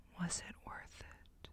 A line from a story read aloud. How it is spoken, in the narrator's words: Her whisper